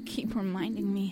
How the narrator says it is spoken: Chuck muttered

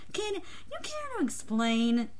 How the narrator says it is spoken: Luke sighed

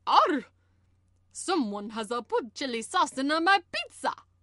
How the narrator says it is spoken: Sonic spluttering in horror

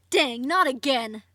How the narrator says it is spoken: Denzel shouted

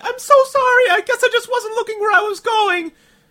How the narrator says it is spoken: Rochelle exclaimed

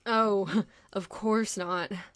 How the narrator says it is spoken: Bruce sighed, reluctantly relinquishing the idea of slouching around in jeans and a hoodie

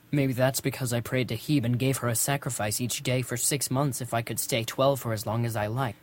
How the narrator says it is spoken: I muttered so Luke couldn't hear me

